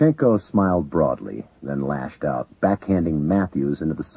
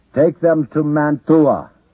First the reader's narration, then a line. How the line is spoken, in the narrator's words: Levchenkov shouted to the guards